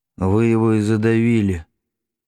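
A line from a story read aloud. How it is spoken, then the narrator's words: Dull, muffled voice. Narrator (Russian): глухо сказал Григорий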